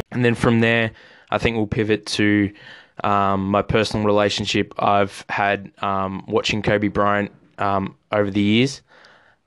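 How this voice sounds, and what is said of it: Subdued, sad, low-energy voice. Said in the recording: “A little bit sadder than usual. I don't know if you can tell in my voice. ... I'm not as up and about as I normally would be”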